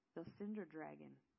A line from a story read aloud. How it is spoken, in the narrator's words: Rutherford said